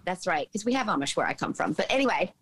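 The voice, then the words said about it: Southern American twang. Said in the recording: “a southern twang, a southern American twang in your accent”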